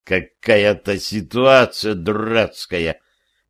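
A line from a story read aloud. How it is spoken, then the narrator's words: Grumbling with groans. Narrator (Russian): Кряхтя, как старый дед, проворчал я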